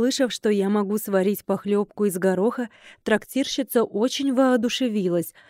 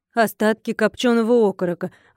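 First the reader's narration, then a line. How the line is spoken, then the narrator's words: Sighing. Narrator (Russian): вздохнула Тася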